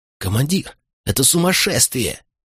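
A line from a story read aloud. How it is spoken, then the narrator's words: Hissed reply. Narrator (Russian): прошипел в ответ Катон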